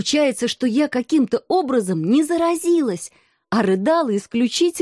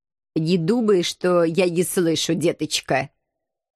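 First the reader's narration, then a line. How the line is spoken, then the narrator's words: Menacing, muffled from below. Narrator (Russian): Грозно отозвался Пушок из-под кресла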